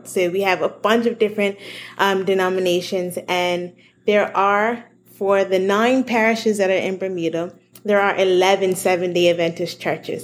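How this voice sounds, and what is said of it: Bermudian accent. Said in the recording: “man, the first time I heard your accent, I did not know how to make sense of it ... you zigged when I thought you were going to zag ... I don't even know, like, the mouth shapes that you make”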